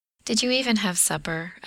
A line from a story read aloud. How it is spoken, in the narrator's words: Adam asks in that fondly exasperated tone he uses sometimes